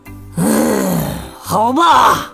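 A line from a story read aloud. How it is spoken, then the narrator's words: Reluctant sigh. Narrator (Chinese): 托尔图加想说不，可随即又叹了口气，说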